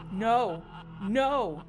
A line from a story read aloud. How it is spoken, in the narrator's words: he shrieked